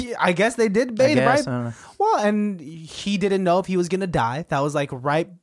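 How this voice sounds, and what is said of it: Usual voice. Nothing is said of it.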